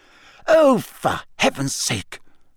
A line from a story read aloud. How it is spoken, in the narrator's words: Hermione cried